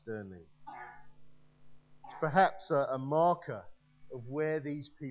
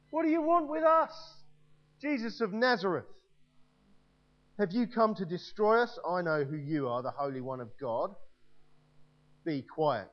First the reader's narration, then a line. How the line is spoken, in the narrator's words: a man in their synagogue who was possessed by an evil spirit cried out